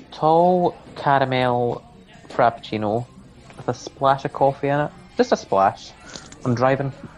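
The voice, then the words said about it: Scottish accent. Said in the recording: “I sense a Scottish accent there”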